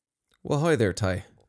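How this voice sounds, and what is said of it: Attempted Minnesotan accent sounding Irish. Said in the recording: “You sounded Irish there. ... I was going for a Minnesotan accent ... It's not even close.”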